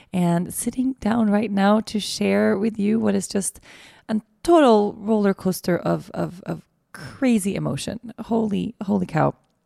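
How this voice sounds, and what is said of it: Hoarse, tired voice. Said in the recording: “my voice is a little bit hoarse. I'm super tired. I'm mega jet lagged.”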